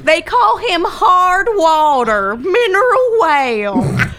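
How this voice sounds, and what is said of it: Put-on accent. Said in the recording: “I just like any excuse to do this accent.”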